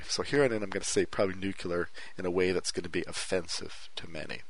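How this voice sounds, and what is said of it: Mixed French Canadian accent. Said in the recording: “my strange, weird Canadian, French Canadian, lived in America, lived in Korea accent”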